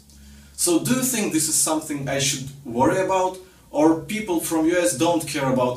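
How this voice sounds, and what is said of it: Russian accent. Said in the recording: “I have this terrible Russian accent ... you sound like all my relatives ... that Russian accent is so endearing to me”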